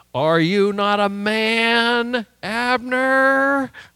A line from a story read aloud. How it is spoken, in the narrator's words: kind of taunting him a little bit